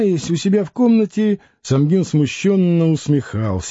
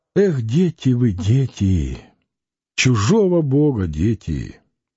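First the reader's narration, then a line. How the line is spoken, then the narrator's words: Sighing. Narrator (Russian): вздохнула Анфимьевна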